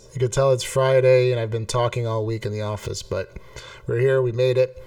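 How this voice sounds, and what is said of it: Hoarse, strained, fading voice. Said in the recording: “I'm losing my voice.”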